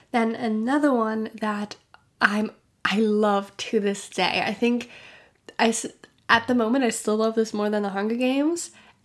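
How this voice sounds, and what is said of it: Strange-sounding sick voice. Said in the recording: “sorry for my voice if it might sound a bit strange, again, I was sick, and I think you can really hear it”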